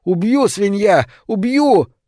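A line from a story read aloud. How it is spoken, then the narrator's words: Screaming at top of lungs. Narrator (Russian): он закричал во все горло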